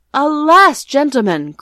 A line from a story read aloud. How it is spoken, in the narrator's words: cried Rip, somewhat dismayed